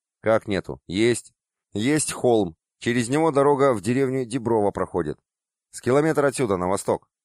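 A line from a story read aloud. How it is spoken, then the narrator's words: Plain. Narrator (Russian): ответил Петросян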